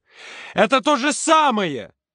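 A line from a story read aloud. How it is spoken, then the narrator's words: Shout. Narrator (Russian): крикнул Юрка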